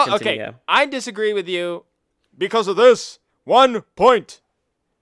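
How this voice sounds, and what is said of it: Usual voice. Nothing is said of it.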